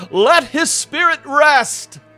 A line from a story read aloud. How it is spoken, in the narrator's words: When Arthur heard this testimony about his father, he … yelled